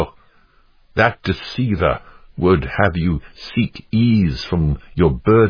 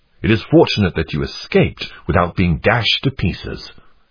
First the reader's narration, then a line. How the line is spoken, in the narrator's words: exclaimed Goodwill